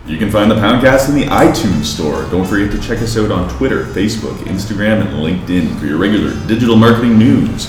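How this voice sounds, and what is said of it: Polished radio announcer voice. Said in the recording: “A little radio outro? ... I love your radio voice. It's so good.”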